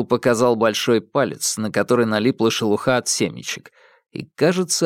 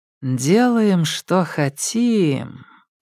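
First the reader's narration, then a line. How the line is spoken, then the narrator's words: Drawl. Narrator (Russian): протянула Алька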